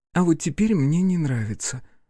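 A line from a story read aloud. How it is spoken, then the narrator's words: Sigh. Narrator (Russian): вздохнула Беатрис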